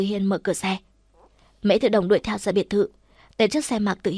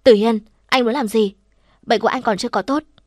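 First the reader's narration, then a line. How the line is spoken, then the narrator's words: Angry. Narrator (Vietnamese): cô tức giận nói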